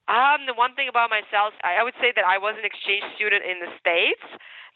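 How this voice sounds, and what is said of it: Ukrainian accent in English. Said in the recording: “And you have an accent. ... I'm Ukrainian. So I was born in Ukraine. ... English, you can hear my accent, right?”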